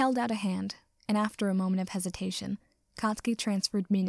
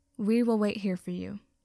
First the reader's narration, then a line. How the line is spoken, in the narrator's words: Ida said